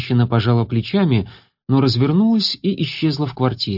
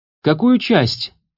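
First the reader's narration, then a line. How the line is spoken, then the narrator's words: Shouting from another room. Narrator (Russian): крикнула из гостиной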